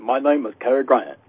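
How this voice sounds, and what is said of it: Cary Grant impression. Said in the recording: “I used to do impersonations of some people ... Everybody did Cary, didn't they?”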